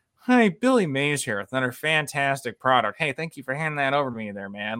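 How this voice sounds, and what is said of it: Weird monotone dubbed Billy Mays voice. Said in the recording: “they would dub it over in like monotone voices... they would just do this really weird voice”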